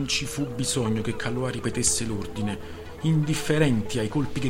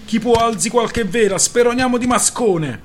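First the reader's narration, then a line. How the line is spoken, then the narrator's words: Shouting. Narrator (Italian): gridò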